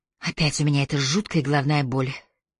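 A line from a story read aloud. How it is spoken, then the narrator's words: Moaning. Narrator (Russian): простонала Сикклифф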